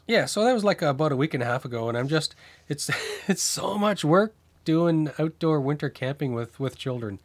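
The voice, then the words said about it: Voice of someone with a cold. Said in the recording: “I've got a bit of a cold.”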